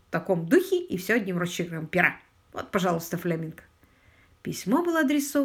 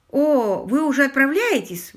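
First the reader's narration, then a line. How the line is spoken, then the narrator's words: Exclaiming. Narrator (Russian): воскликнул Уимзи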